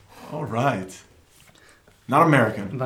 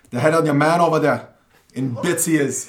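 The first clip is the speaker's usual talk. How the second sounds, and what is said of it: Strong put-on Dublin accent. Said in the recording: “a strong Dublin accent”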